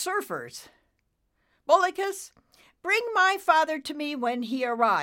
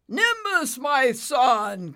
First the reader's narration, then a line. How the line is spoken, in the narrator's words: Cumulo bellowed